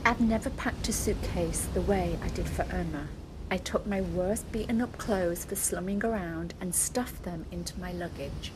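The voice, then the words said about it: British accent. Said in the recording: “You'll hear her adorable British accent. She was so scared, poor thing.”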